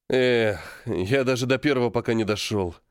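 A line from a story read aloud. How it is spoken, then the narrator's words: Sighing. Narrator (Russian): вздохнул Дэн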